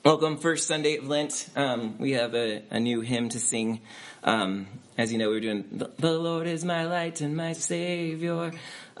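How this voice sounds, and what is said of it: Hoarse, fading voice. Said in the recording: “I'm losing my voice because that cough thing ... I'm just losing it.”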